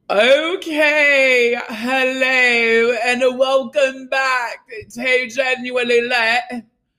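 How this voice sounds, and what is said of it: Put-on British accent. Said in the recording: “I'm talking British”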